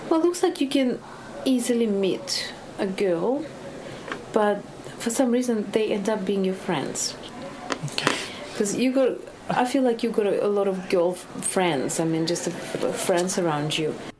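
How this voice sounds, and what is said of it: Eastern European accent. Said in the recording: “the Eastern European accent? ... I want Ivanka from Eastern Europe to do it.”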